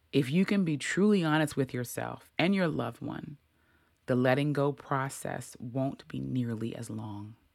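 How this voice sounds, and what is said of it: Emotional, slightly choked-up reading voice. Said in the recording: “while I was reading that, I got a little emotional.”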